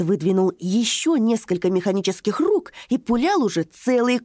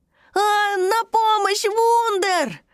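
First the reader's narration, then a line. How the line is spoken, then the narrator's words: Shouting. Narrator (Russian): закричал Рути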